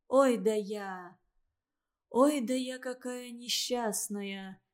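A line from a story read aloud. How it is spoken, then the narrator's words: Convulsive sighing lament. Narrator (Russian): судорожно вздохнула Валентина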